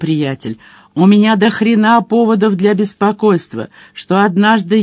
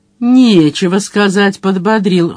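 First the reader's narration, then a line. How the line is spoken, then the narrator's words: Snorting grunt. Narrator (Russian): хмыкнул Мадж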